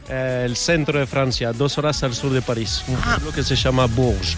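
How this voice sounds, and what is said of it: Foreign accent in Spanish. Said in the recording (Spanish): “por tu acento yo diría que el día que ganó España el Mundial tú no estabas muy contento ... no eres uruguayo ... te falla totalmente el acento ... ya más francés”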